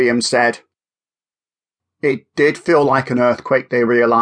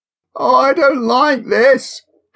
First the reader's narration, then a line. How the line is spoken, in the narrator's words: Hannah whimpered, tears beginning to fall